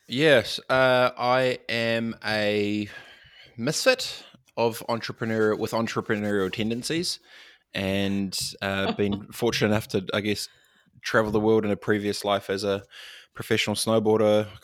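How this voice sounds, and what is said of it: Slight New Zealand accent. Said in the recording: “You obviously have a little bit of a Kiwi accent”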